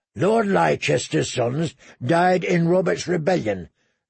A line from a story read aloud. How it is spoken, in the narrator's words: grumbled Lem